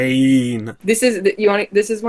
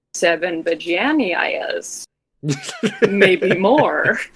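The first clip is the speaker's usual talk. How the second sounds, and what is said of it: Imitates another person's voice. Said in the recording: “my impression of Zack Snyder talking to the set designer”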